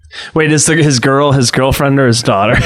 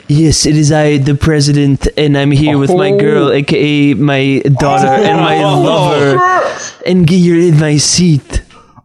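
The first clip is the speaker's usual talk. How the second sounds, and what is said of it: Imitates another person's voice. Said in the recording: “my impression of the guy with the gun ... making fun of Vladimir Putin like that”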